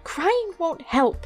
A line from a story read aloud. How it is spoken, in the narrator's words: she snapped